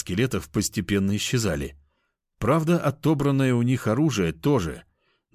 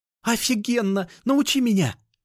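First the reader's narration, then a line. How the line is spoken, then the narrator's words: Exclaiming. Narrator (Russian): воскликнула Кошкина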